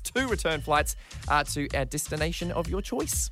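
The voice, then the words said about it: New Zealand accent slips through. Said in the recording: “It was the Kiwi coming out of me. Did you hear that?”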